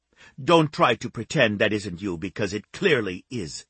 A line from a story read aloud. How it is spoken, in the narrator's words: Eloisa snapped